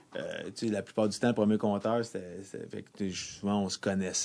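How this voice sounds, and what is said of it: Québécois French accent. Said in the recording (French): “tu as un euh, accent québécois pour tous tes mots, sauf flamme”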